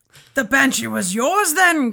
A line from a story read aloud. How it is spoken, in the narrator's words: cried